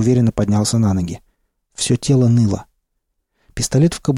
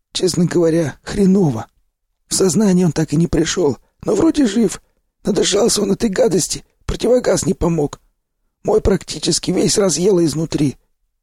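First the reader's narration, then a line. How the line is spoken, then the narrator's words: Hoarse telling. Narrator (Russian): поведал мне сиплый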